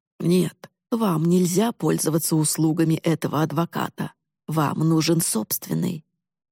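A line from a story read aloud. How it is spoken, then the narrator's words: Gentle insistence. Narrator (Russian): мягко настоял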